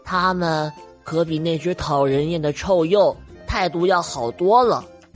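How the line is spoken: Soft muttering. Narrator (Chinese): 小不点儿轻声的嘟囔着

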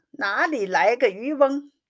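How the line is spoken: Concerned questioning. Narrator (Chinese): 宝玉一面关心地问长问短

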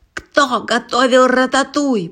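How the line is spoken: Shouted. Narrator (Russian): прокричал он

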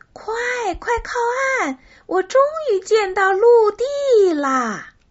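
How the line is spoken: Shouting. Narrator (Chinese): 卡梅拉嚷着

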